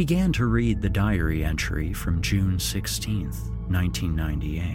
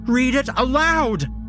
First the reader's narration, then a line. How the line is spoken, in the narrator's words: she shouts